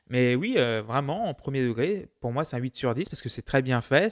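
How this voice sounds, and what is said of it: Put-on southern French accent. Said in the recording (French): “je prends un accent du Sud”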